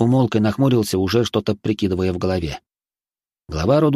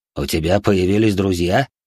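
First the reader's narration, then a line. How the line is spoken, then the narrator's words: Father's snort. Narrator (Russian): хмыкнул отец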